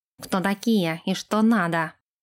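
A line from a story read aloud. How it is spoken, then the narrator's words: Growling. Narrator (Russian): рыкнул он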